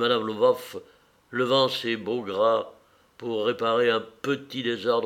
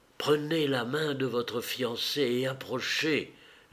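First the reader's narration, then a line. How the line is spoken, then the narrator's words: Whispered prompt. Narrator (French): souffla le garçon d'honneur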